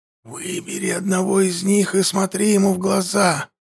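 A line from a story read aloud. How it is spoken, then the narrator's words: Whisper. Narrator (Russian): прошептал светоч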